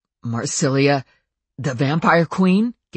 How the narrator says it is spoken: Gabriel choked

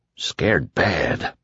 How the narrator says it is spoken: Ralph whispered

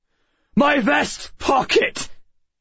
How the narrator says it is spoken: Bentham shouted

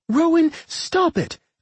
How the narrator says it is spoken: Claire cried out, struggling to break free of the bag

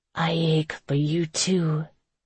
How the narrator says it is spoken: said in a husky voice

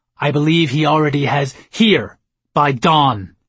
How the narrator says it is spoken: I yelled

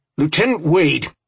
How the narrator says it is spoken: Robinson shouted

